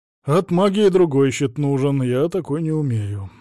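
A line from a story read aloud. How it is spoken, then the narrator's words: Sighing. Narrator (Russian): вздохнул Савелий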